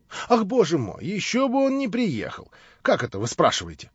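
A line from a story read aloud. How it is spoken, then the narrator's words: Surprised exclamation. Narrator (Russian): воскликнул с удивлением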